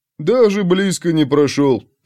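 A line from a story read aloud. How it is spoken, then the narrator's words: Uncertain grumble. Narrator (Russian): пробурчал Улли без особой уверенности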